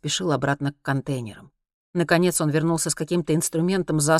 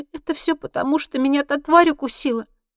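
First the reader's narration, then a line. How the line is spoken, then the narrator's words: Moaning. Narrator (Russian): простонала она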